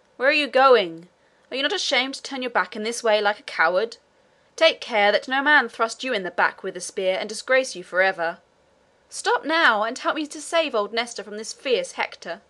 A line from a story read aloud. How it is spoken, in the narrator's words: he cried, as loudly as he could